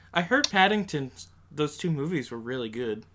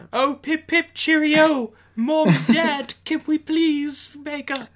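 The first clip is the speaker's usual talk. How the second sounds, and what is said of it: Put-on British accent. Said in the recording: “He's British, so you have to say that in an accent.”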